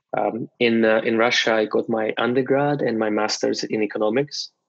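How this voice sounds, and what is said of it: Russian accent. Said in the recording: “as you can tell by a little bit of my accent, maybe a lot, I was born in Russia”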